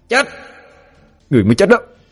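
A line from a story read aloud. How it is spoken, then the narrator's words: Confident loud shout. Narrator (Vietnamese): Quỷ thai cảm thấy chắc 10-10, hét lớn một tiếng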